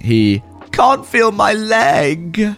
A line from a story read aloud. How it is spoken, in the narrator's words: the entitled kid starts yelling